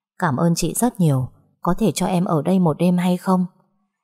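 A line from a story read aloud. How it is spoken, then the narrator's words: Soft gentle voice. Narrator (Vietnamese): cô gái đó mới nhỏ nhẹ nói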